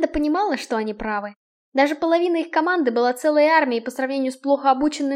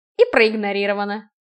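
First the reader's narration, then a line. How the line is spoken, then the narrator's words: Scoffing grunt. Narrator (Russian): хмыкнул Киган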